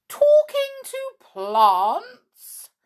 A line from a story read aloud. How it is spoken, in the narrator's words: exclaimed